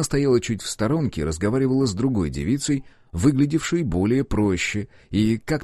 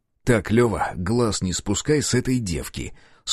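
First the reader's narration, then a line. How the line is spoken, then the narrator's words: Stern command. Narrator (Russian): строгим тоном приказал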